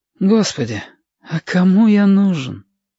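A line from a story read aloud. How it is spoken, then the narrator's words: Artless bitter exhale. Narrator (Russian): выдохнул Сопливик, простодушная горечь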